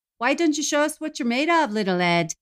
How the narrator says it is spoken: one of the patrons shouted

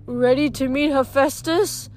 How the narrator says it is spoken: Grover said nervously

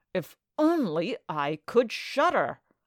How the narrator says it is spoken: said quite savagely

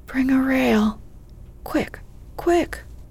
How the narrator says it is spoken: Lori's voice cried out

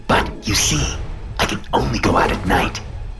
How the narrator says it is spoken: the beast said, his voice sharp

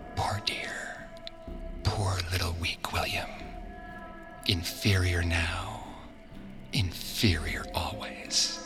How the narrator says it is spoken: She whispered to him

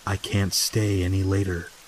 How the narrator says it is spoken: she said quietly

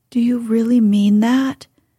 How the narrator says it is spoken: he asked anxiously

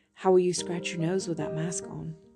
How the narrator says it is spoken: Norman whispered

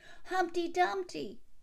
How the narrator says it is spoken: cried others

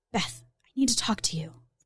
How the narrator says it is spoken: Gemma whispered

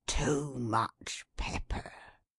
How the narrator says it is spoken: he never went to sleep without being heard to mutter

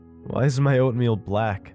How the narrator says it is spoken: I asked, chuckling

